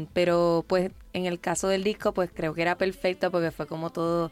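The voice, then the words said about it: Pleasant Puerto Rican Spanish accent. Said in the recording (Spanish): “Qué bonito acento tiene ... Tú, nacida en Puerto Rico.”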